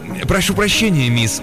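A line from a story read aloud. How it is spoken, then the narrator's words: Babbling mumble. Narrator (Russian): пролепетал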